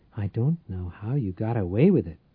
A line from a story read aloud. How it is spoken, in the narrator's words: Tate whispered